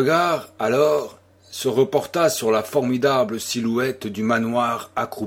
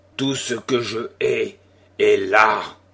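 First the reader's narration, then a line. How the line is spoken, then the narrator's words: Growling. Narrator (French): gronda-t-il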